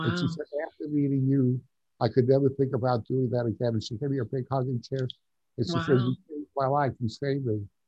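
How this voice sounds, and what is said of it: East Coast New York accent. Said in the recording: “I like your accent. Are you from the East Coast originally? ... I'm a New Yorker. ... you don't sound like you're Arizonan.”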